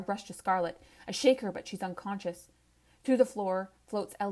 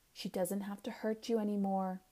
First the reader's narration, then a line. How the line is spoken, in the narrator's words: I whisper